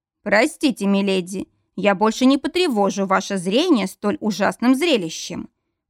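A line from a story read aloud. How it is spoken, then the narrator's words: Growling. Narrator (Russian): прорычал он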